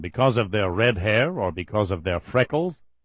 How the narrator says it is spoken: Grishinov asked bitterly

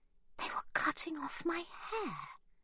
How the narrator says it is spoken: she whispers

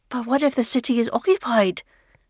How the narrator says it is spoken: Malin blurts, saying aloud what they have all been fearing

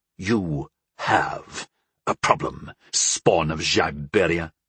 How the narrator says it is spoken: Vadrian hissed

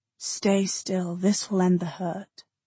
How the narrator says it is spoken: he said in his soft, omnidirectional whisper

